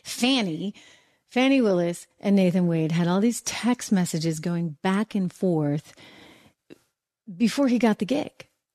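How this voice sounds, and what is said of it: New England accent. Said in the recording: “I can't help my New England accent.”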